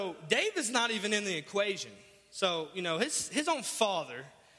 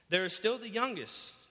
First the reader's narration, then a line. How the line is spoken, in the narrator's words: Jesse answered